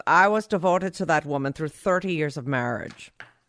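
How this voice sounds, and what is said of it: Vague Zsa Zsa Gabor accent. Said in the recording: “I don't know what his accent is. I'm just doing a vague Zsa Zsa.”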